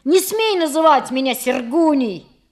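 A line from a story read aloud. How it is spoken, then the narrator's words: Yelling. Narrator (Russian): орал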